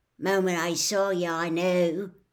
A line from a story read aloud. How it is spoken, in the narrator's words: he was saying in an oddly husky voice